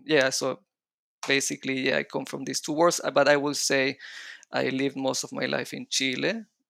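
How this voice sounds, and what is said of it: Mixed Israeli and Latin American Spanish accent. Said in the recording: “my accent is mixing up a little bit of the Israeli accent and the Latin American Spanish accent ... I cannot pronounce the R's”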